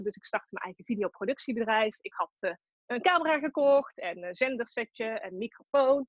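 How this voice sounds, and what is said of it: Tilburg Brabant Dutch accent. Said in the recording (Dutch): “Ik kom uit Tilburg, dat hoor je misschien ook wel.”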